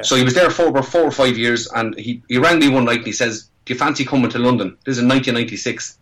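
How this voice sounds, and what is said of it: Irish accent. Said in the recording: “I still have my accent, thank God... you can't take the Irish out of the man”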